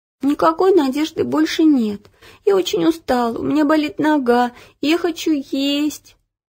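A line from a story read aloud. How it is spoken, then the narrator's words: Whimpering, tired. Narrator (Russian): хныкала Ело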